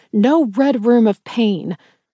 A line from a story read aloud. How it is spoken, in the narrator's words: I snapped angrily